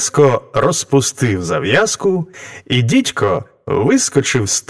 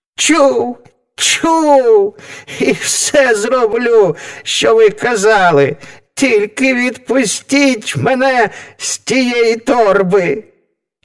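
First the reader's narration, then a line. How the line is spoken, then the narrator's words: Shrieking devil. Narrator (Ukrainian): Заверещав дідько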